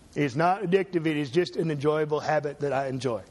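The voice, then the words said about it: Impression of a tobacco executive. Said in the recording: “my impression of a tobacco executive before the U.S. Congress”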